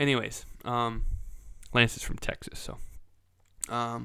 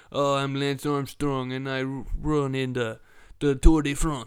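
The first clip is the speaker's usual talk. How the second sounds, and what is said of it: Bad put-on French accent. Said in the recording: “my French impersonation ... Oh, that was that was bad”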